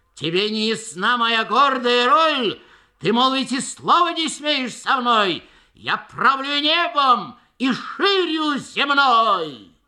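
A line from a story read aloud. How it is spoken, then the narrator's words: Shouting. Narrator (Russian): он кричал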